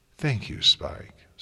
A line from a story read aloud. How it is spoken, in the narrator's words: Celestia replied warmly